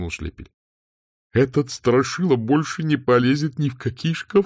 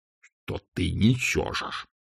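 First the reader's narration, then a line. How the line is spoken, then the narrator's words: Hissed. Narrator (Russian): прошипел чудак Улли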